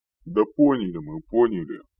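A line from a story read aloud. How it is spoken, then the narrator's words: Grumbled. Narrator (Russian): проворчал Рикар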